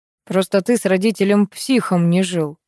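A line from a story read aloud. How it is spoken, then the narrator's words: Wry snort. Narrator (Russian): хмыкнул Олег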